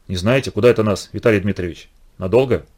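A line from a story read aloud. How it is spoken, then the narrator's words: Calm reply. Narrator (Russian): Дрозд спокойно ответил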